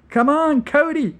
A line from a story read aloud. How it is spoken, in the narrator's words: shrieked Rabatine